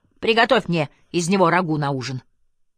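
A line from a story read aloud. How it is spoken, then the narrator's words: Shouting. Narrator (Russian): крикнув при этом Розе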